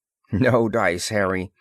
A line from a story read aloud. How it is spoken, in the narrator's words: Ross assured him firmly